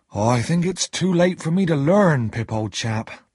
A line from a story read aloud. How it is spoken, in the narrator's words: Joe said sadly